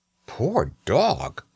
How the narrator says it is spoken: I exclaimed, for my heart was filled with pity for him

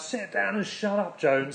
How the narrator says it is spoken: someone shouted out

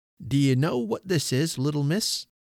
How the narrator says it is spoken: After a pause, he cried

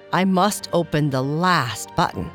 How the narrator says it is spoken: sighed the giant

